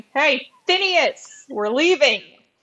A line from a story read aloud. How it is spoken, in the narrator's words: yelling